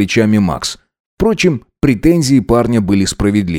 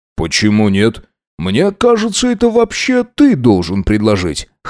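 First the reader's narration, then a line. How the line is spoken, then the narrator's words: Wry snort. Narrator (Russian): хмыкнул он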